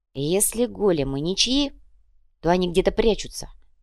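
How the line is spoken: Whispered. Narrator (Russian): прошептал иголка

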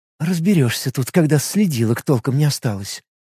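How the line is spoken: Muttered. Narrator (Russian): пробормотала Лига

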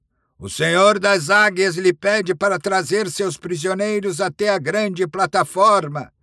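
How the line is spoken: Shout. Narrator (Portuguese): gritou

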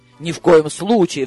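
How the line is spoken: Frightened. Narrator (Russian): вздрогнул мужчина, испуганно

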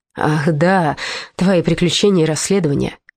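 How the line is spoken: Deep sigh. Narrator (Russian): король глубоко вздохнул

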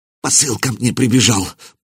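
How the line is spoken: Fearful mutter. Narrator (Russian): пробормотал пленник, потея от страха

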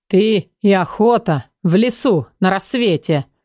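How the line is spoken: Short laugh. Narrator (Russian): хохотнул Эдер

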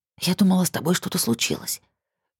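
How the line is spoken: Whispering. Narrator (Russian): шептала она

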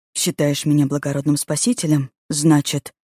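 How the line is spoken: Hissed. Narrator (Russian): прошипел

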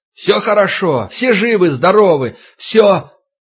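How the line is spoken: Shouting through cupped hands. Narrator (Russian): Егоров сложив ладони рупором, заорал

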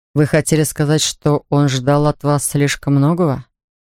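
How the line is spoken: Plain. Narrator (Russian): спросил я

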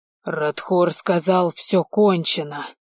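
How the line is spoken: Growl. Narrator (Russian): зарычал Ален

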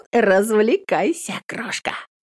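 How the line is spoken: Giggling whisper. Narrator (Russian): хихикнув, шепчет на ухо подруга

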